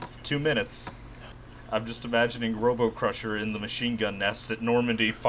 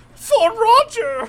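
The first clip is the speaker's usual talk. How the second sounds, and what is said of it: Good impression of a character voice. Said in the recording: “That was a very good Robo Crusher impression.”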